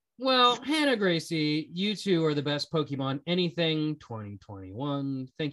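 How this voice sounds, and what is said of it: Usual voice. Nothing is said of it.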